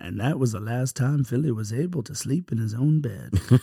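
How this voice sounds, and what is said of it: Morgan Freeman impression. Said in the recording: “I feel like Morgan Freeman ... I don't think that was a half bad Morgan Freeman.”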